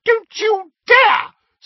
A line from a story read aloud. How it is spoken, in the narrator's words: squealed Aunt Petunia